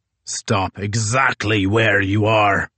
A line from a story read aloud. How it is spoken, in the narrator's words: bellowed Crozier